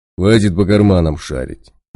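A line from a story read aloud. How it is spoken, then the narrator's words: Menacing declaration. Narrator (Russian): грозно заявил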